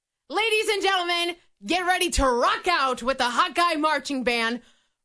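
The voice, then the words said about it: Booming stadium announcer voice. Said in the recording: “announcer voice”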